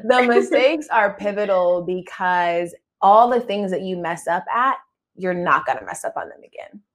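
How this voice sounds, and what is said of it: Hoarse, froggy throat. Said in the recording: “I have a frog in my throat”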